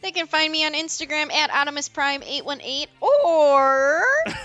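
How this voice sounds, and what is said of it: Voice cracking. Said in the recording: “Are you going through puberty?... my voice cracked real big. I am a 12-year-old boy.”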